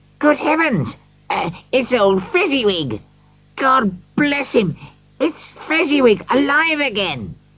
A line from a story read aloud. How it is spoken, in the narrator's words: Scrooge cried excitedly